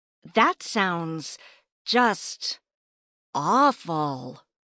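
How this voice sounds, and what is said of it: Sarcastic delivery. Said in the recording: “hear the sarcasm in my voice”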